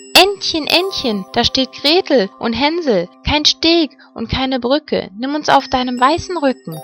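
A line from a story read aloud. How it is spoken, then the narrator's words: Calling out. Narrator (German): rief sie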